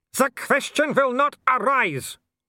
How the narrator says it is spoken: Wolf bellowed

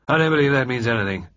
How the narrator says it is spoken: said Sir George gloomily

